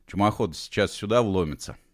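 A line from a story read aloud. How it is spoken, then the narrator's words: Calm statement. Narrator (Russian): спокойно сообщил он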